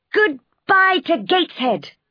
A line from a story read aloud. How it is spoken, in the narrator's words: I shouted wildly